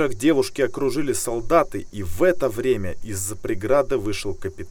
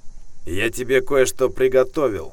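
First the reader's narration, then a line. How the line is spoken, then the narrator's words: Snorted. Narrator (Russian): хмыкнул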